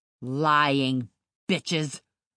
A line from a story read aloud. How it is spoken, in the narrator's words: he bellowed